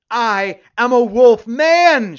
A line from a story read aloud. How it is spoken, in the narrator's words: shouted the new Zachary Donaldson